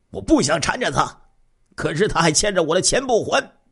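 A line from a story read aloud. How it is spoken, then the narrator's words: Angry shout. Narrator (Chinese): 赵玉国愤怒的喊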